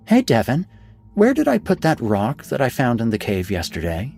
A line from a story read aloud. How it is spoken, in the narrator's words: she asked, sweetly, yet strangely